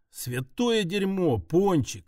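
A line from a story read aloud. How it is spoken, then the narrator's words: Mutter. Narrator (Russian): пробормотал я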